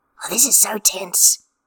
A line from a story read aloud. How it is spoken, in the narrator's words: Jingyi says, his voice hushed